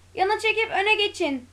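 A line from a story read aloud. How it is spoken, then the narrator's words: Group shouting. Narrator (Turkish): diye bağırdılar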